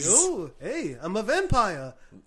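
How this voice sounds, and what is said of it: Put-on vampire Jewish accent. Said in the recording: “my vampire Jewish accent's not that bad”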